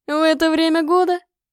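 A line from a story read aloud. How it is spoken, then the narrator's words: Laughing. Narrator (Russian): рассмеялся он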